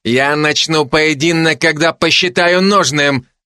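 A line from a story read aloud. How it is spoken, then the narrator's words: Barked. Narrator (Russian): гаркнул Орлов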